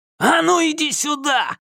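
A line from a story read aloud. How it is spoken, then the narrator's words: Yelling. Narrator (Russian): заорал Галли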